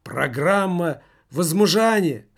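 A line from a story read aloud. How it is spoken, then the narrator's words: Hoarse wheeze. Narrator (Russian): хрипел он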